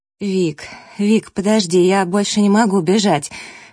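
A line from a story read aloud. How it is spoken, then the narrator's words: Breathless hoarse rasp. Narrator (Russian): Вконец запыхавшись, прохрипела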